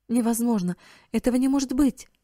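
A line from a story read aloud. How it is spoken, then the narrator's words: Exclamation. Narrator (Russian): воскликнула миссис Хоуп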